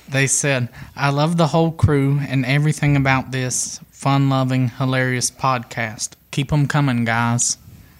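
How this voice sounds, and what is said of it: Sweet Southern Virginia accent. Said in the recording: “his sweet Southern Virginia accent”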